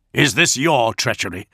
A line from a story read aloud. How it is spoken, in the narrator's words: he snarled